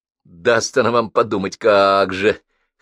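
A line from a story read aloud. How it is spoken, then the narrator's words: Wry snort. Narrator (Russian): хмыкнул Паша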